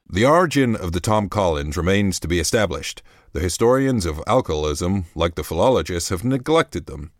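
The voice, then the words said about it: Put-on American accent. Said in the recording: “I'm going to do my American accent now. That was my London accent.”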